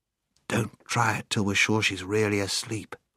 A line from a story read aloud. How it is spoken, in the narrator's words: whispered Scrub